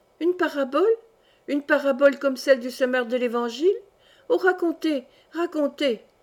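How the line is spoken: Children exclaiming together. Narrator (French): s'écrièrent tous mes enfants

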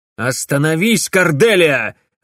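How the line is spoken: Barked. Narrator (Russian): рявкнул Дмитрий

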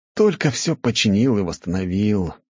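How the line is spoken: Groaning. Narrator (Russian): простонал

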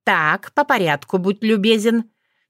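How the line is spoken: Stern command. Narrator (Russian): строго велела Руха

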